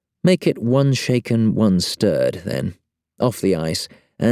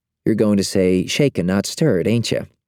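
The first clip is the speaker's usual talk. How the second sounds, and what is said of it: Midwestern American accent. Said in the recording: “She's got a Midwestern accent”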